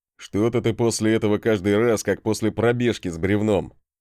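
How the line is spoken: Snorting. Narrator (Russian): хмыкнул Тормод

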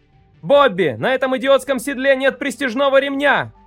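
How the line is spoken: Shouting. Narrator (Russian): кричал я

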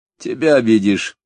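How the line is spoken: Chuckled, senior man. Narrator (Russian): старшой хохотнул

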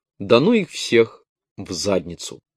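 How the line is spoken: Irritable passerby's mutter. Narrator (Russian): Какой-то прохожий в рубашке, видимо, из вечно озлобленных, пробормотал

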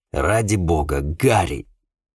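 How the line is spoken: Grumbling. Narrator (Russian): проворчал

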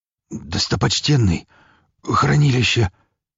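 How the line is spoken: Hoarse rasp. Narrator (Russian): Только и прохрипел он

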